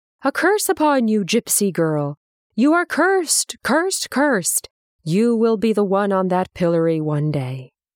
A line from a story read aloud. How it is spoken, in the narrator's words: an old woman peering from a barred window shouted